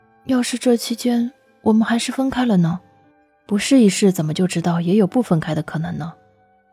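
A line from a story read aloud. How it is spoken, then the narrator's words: Sighing. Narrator (Chinese): 楚河叹口气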